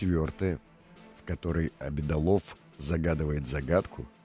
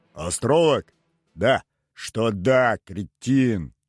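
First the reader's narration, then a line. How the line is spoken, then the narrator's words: Loud laughter. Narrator (Russian): Громко рассмеялся Обедолов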